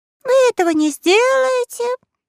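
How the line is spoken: Loud, slightly scared boy. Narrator (Russian): громко ответил и мальчик, который, правда, немного струхнул

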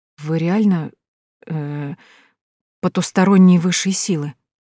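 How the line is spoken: Mumbling. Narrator (Russian): Промямлила

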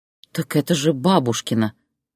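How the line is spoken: Soft whisper. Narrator (Russian): тихо прошептала Зоя

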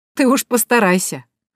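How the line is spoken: Laughing chuckle. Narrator (Russian): хохотнула я

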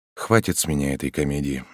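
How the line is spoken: Unusually quiet. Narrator (Russian): необычайно тихо произнес К

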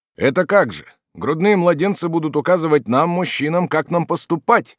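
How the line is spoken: Loud question. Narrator (Russian): громко спросил Массук

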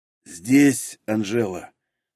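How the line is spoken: Dry hoarse wheeze. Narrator (Russian): сухо просипел Разумовский

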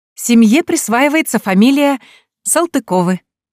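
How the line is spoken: Joyful announcement. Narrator (Russian): радостно объявляет она

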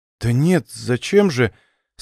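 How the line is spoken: Embarrassed mumble. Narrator (Russian): Сконфуженно пробормотала Леночка

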